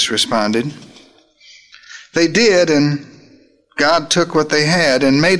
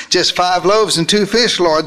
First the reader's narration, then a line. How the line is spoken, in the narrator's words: nervously replied